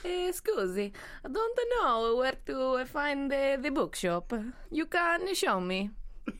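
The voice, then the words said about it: Put-on Italian accent. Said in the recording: “What about Italian?”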